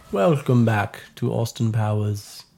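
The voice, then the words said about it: Put-on unidentifiable accent. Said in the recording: “I don't know what accent that was”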